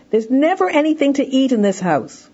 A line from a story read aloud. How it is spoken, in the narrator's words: the child is hungry, shouts out to his mother